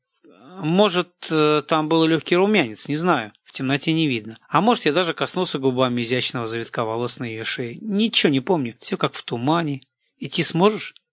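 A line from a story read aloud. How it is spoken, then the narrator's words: Plain. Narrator (Russian): спросил я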